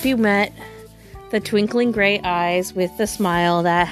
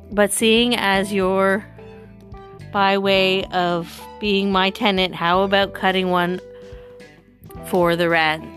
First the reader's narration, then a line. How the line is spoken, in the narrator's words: She chuckled